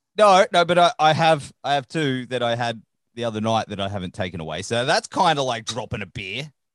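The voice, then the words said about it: Broad Australian accent. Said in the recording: “That's our accent. We sound like a four-wheel drive being backed into a tree.”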